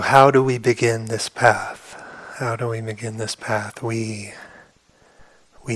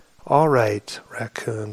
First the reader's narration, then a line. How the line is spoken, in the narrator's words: said Mouse